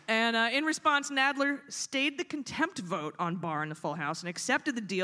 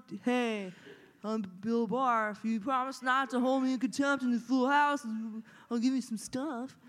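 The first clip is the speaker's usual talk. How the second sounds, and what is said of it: Good impression of Bill Barr. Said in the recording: “It's a pretty good impression”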